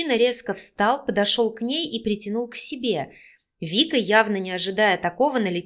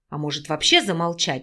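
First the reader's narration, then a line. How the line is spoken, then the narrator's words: Displeased hiss. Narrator (Russian): недовольно прошипел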